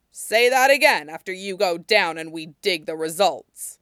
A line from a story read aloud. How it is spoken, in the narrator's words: Timul growled